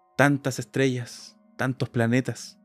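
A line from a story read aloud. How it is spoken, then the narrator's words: Pensive sigh. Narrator (Spanish): suspiró Gerodín, inmersa en sus propios pensamientos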